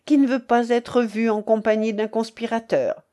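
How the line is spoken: Laughing. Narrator (French): dit-il en riant

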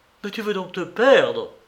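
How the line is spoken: Exclaimed. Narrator (French): s'écria Saint-Briac

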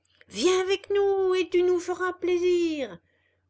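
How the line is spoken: Many voices shouting together. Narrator (French): hurlèrent toutes les voix

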